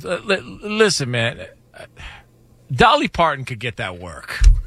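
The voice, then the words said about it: Impression with resigned, giving-up tone. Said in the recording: “That's actually a great impression. You could hear the moment you gave up.”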